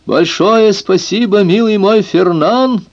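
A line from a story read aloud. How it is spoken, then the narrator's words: Shout toward forest. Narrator (Russian): крикнул он в сторону леса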